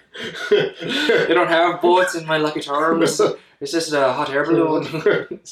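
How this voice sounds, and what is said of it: Bad put-on leprechaun-style accent. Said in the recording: “It's bad. It's a bad accent.”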